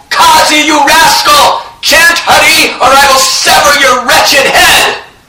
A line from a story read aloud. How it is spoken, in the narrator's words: Gadadhar Das was continuously screaming out